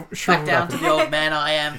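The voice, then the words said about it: Thick put-on accent. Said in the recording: “that was a thick accent.”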